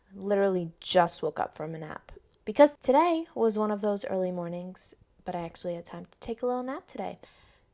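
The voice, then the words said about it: Unusually low voice. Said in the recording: “My voice is so low today. I hope you all are enjoying it. I'm sorry if it sounds ridiculous.”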